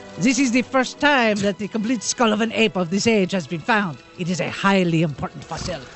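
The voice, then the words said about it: Put-on French accent. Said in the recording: “Are you just looking for French stories now so you can do that voice?”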